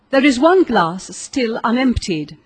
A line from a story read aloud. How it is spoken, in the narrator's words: said the Marquis